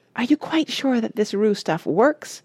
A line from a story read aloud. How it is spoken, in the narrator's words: asked nervously